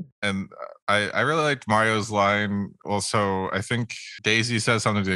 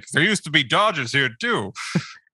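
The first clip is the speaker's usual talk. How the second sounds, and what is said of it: Put-on New York accent. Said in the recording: “I apologize for whatever accent that was... because New York”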